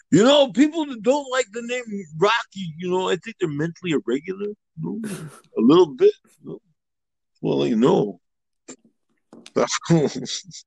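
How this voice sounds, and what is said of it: Rocky Balboa impression. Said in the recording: “Rocky Balboa sounds ... You're still in impersonation. Never fails. ... It's still pretty good, even though over phone.”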